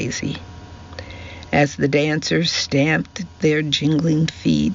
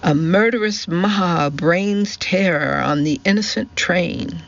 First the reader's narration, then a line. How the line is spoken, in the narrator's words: cried Daisy